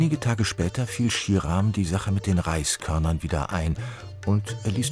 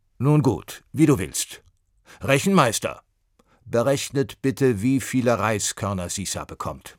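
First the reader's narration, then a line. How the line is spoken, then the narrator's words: Called out. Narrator (German): rief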